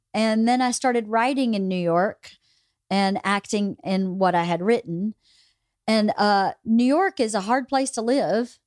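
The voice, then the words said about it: Southern American accent. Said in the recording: “I have a southern accent, people kept going, well, get rid of your accent... I've been working on it and it's not going.”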